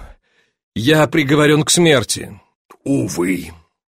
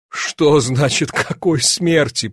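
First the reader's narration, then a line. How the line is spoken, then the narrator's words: Moaning. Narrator (Russian): простонал Зюдерланд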